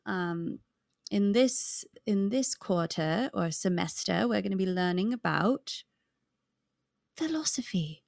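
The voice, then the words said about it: Put-on British accent, somewhat Australian. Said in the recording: “That's my British accent ... I think it's a little Australian, actually.”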